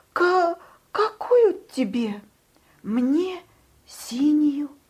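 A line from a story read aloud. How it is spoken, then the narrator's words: Timid. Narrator (Russian): робко сказал Павлик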